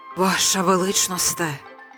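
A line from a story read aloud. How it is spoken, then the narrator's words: Mumble. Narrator (Ukrainian): пробурмотів прем'єр-міністр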